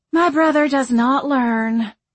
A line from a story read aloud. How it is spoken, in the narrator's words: Marianne sighed